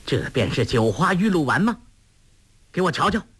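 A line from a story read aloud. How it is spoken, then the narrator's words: Stern sharp voice. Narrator (Chinese): 英姑厉声说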